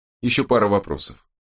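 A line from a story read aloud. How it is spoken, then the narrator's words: Even level tone. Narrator (Russian): ровным тоном произнес Страйк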